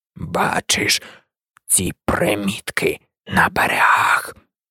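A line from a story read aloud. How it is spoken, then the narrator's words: Old man's near-whisper. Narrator (Ukrainian): Старий чарівник майже шепотів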